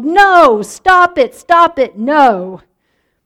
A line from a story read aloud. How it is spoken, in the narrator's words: Mark yelled